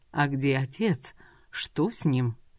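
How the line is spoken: Even tone. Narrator (Russian): Ровным тоном промолвила Софико

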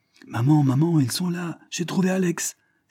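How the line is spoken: Child's excited cry. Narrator (French): s'écrie la gamine

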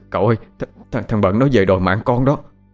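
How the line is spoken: Trembling voice. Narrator (Vietnamese): Thằng Đen giọng run run nó nói

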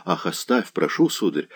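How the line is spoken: Blushing, embarrassed whisper. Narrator (Russian): шептала княжна, вспыхивая

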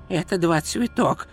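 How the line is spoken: Whispered. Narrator (Russian): шепнул Ринсвинд

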